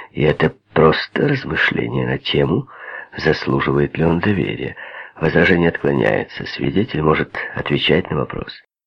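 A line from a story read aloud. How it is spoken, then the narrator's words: Plain. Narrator (Russian): сказал Пибоди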